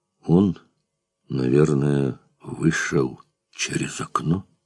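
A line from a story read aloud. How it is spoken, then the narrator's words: Quiet meaningful whisper. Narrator (Russian): сказал на ухо тихо и значительно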